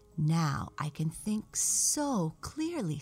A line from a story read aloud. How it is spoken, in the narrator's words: said Raggedy Ann